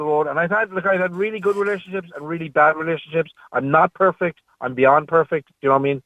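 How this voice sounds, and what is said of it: Slight American-influenced accent. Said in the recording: “I'm assuming there was a move to America in the interim ... I sensed the accent.”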